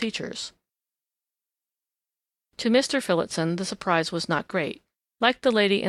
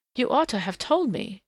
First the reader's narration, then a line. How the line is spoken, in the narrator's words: she gasped petulantly